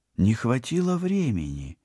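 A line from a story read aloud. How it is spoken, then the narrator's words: Uncertain suggestion. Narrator (Russian): неуверенно предположила Полина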